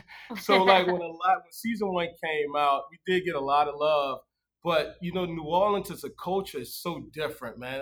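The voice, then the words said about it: Deep New Orleans accent. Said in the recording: “I have a real deep accent”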